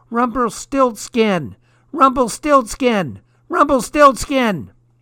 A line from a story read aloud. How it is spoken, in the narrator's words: the little man standing outside screaming